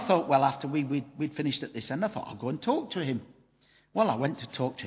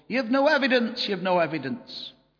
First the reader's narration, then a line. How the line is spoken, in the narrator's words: And this man started shouting across from his stall